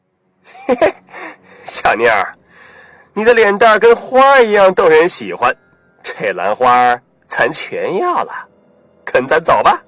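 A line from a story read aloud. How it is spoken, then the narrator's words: Leering chuckle. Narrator (Chinese): 溜里溜气的无赖嘿嘿笑道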